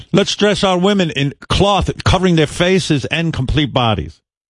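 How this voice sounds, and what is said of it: Put-on Iranian accent. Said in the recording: “Great Iranian accent, by the way. I'm like Alec Baldwin with the impressions.”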